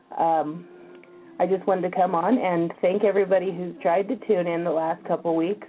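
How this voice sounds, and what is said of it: Strained, failing voice. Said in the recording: “I don't know if you can tell, but I'm trying to lose my voice.”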